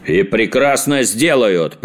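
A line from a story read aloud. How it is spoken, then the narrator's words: Thundering boom. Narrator (Russian): прогремел принц Лимон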